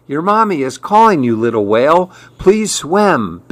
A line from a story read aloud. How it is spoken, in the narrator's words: begged Maribel